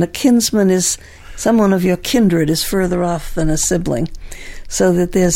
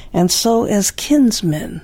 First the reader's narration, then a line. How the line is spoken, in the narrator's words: she said